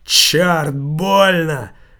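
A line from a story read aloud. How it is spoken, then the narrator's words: Pained exclamation. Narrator (Russian): воскликнул свиньи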